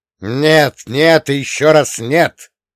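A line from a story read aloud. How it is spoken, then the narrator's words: Barked. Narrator (Russian): рявкнул я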